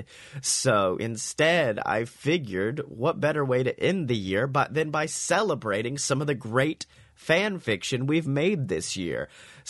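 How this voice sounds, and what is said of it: Sick-sounding voice. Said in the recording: “if you couldn't tell by my voice, I am a very sick boy”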